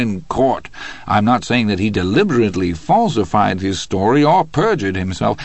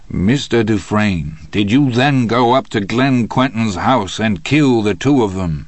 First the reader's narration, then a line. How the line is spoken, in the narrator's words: his lawyer thundered